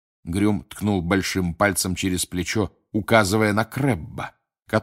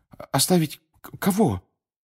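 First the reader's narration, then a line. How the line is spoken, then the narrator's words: Confused question. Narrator (Russian): растерянно спросил Гарри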